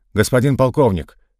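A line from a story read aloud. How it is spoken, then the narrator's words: Sharp command. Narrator (Russian): резко приказал врач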